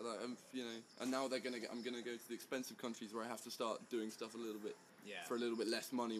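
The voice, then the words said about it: British accent. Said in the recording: “people love British people in the U.S. ... The accent, they'll love the accent,”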